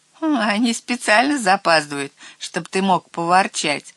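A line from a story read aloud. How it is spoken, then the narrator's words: Laughing. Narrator (Russian): засмеялся трусишка Лёбнер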